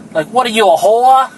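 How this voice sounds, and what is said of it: Poorly imitated Boston accent. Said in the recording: “with her Boston accent. ... That didn't sound good at all.”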